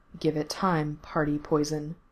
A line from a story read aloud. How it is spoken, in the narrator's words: Mikey told him softly